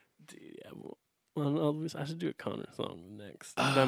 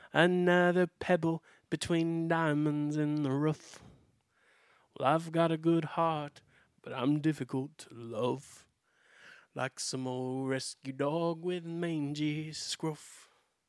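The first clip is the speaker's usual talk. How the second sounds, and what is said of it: Sings imitating another person's accent. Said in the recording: “I'm going to do it in his accent”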